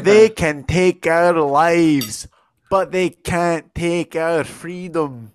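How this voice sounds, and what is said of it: Put-on accent for movie quote. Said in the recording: “I'm going to do the accent too because it's really awesome.”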